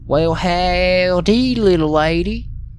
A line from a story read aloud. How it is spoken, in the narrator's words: he said in a perfect Texas drawl